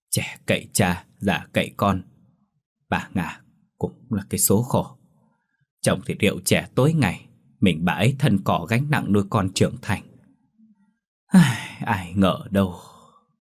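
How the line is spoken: Sighing. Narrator (Vietnamese): Bà thắm hàng xóm thì thở dài, bỏ lượng câu nói

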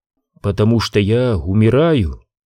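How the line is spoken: Plain. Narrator (Russian): ответила королева

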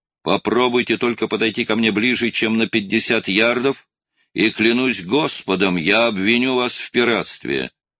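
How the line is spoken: Shouted. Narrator (Russian): Струан прокричал

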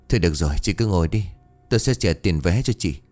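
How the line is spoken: Hesitant sigh. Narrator (Vietnamese): Chần chừ suy nghĩ một lúc, cậu ta thở dài

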